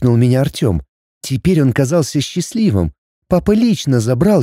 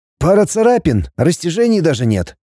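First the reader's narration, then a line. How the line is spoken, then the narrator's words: Surprised doctor reporting. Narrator (Russian): Удивленно доложил Максиму доктор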